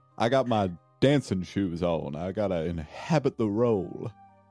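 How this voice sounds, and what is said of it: Slick put-on character accent. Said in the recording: “Your accent's putting me off a bit there. ... Something about this character just sounds really slick to me”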